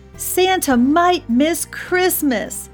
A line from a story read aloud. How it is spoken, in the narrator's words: shouted the elves